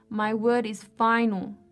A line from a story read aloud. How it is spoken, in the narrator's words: said sternly